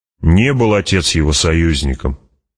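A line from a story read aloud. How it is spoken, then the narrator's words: Angry girl. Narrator (Russian): сердито сказала девочка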